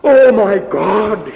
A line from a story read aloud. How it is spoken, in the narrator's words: he cries